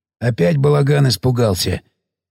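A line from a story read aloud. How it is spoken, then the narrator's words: Hoarse speaker, speculating. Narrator (Russian): выдвинул гипотезу Сиплый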